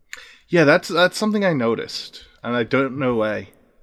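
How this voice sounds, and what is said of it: Put-on accent. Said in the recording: “I just started doing an accent”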